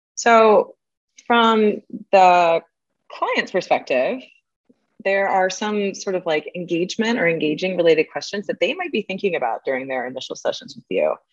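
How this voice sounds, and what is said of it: Slightly raspy, strained voice. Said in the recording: “my throat is going a little bit today ... I get a bit raspy”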